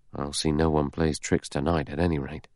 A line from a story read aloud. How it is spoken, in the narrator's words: He murmured